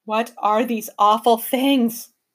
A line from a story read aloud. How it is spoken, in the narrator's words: Ben gasped as one green monster poked his arm with a sharp finger